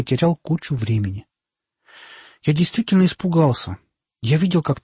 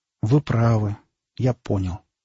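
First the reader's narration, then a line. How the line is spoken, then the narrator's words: Sad. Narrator (Russian): грустно сказал Димка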